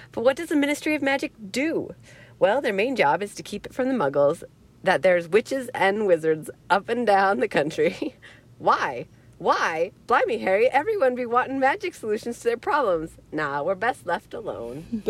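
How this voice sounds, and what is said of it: Imitation of Hagrid's voice. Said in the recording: “I'm not very good with Hagrid's voice. It works in my head, but it doesn't work out. ... Do a Hagrid voice.”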